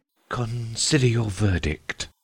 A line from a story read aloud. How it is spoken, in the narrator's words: he said in a low, trembling voice